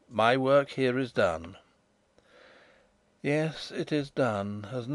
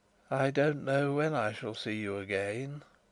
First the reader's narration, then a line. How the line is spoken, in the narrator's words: he said faintly, almost listlessly